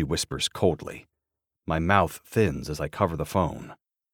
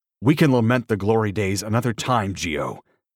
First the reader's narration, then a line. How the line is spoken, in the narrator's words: I growl